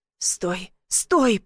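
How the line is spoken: Hoarse wheeze. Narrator (Russian): прохрипел

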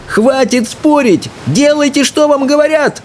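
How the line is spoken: Yell. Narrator (Russian): заорал Икинг

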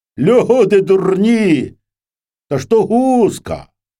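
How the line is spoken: Sudden shout. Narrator (Ukrainian): Та як закричить

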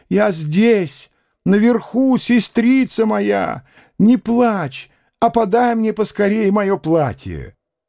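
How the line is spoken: Loud shout, a lady. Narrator (Russian): дама закричала, как могла, громче

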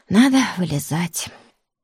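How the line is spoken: Sighing. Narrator (Russian): вздохнула и сказала

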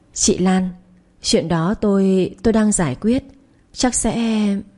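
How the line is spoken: Flustered, hesitant. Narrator (Vietnamese): hiệu trưởng Trang có chút bối rối, ngập ngừng

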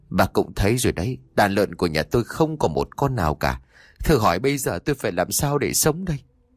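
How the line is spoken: Weary sigh. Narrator (Vietnamese): Pô Khốc, ông ta thở dài

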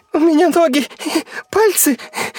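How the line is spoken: Sobbing. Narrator (Russian): всхлипывал Гоша

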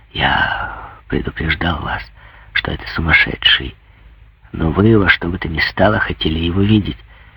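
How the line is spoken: Secretive whisper. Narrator (Russian): шепнул, чтобы архидиакон его не слышал

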